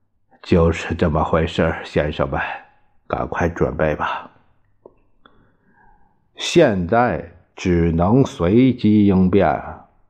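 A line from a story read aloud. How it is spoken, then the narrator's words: Sighing. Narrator (Chinese): 巴巴叹道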